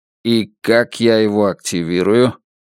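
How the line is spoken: Cold question. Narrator (Russian): холодно спросил он

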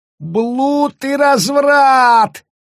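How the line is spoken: Yelled. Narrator (Russian): завопил Таббинс

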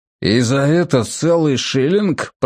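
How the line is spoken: Grumbled. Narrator (Russian): проворчал тот

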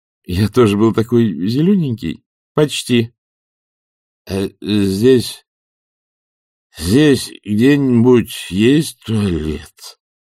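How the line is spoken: Mumbled with numb lips. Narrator (Russian): промямлил их груз непослушными губами

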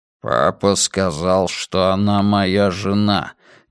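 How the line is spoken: Heavy voice. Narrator (Russian): тяжелым голосом произнес хромой

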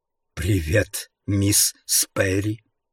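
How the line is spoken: Whisper. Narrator (Russian): прошептал он

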